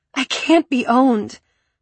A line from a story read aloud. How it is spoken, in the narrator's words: I cried out